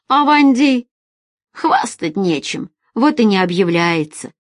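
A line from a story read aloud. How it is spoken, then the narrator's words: Smirking grunt. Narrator (Russian): хмыкнул Мустафа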